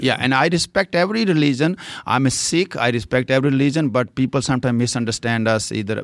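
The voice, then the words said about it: Indian accent, fluent English. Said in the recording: “you speak uh, very fluent English. Uh, you do have an Indian accent. I mean, it's obvious”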